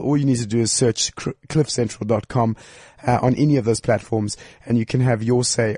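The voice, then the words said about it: Unwell, poor-sounding voice. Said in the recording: “My voice isn't better ... Not nice sometimes to hear this ... How are you not well?”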